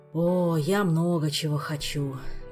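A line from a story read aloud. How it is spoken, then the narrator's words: Sighing. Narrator (Russian): вздохнул Кантор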